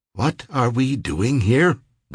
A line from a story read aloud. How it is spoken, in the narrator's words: Ricky asked